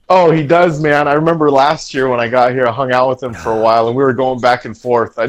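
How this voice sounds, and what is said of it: Usual voice. Nothing is said of it.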